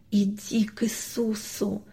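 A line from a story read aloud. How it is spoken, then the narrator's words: Father's soundless whisper. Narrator (Russian): беззвучно прошептал папа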